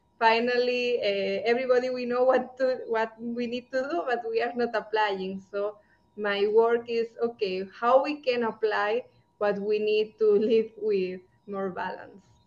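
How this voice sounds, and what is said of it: Indian-accented English. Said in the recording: “you have an Indian accent... it's so cute”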